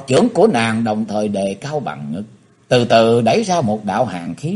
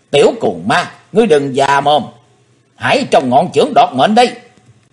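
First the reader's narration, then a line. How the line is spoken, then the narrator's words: Shrill woman's shout. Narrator (Vietnamese): Hắc Phụng Hoàng, hét lên lanh lảnh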